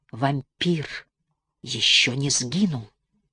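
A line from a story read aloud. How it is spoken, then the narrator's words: Quiet and weighty. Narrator (Russian): тихо и веско произнес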